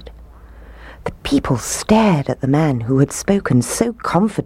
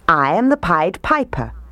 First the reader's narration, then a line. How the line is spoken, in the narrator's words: he said